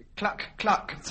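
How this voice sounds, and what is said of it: Imitates a hen clucking. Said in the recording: “That was a hen, sir.”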